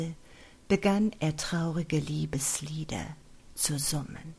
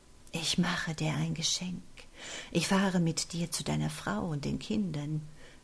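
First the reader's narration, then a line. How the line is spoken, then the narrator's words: Whispered into ear. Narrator (German): wisperte ihm sein Peiniger ins Ohr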